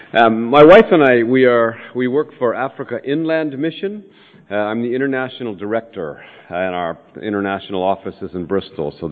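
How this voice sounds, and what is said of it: American accent. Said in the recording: “I'm sure you can hear my accent... it is a West Country accent, but it's a lot further west, near that westernmost outpost of Irish civilization called San Francisco”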